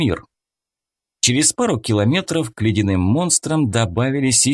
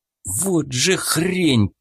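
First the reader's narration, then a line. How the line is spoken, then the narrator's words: Hiss. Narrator (Russian): прошипел я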